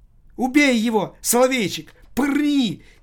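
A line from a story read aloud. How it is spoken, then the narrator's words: Girl's frantic shriek. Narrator (Russian): истошно завизжала девочка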